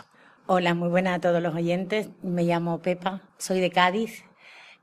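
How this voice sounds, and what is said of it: A different regional Spanish accent. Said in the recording (Spanish): “con otro acento. Aquí vamos de acento en acento.”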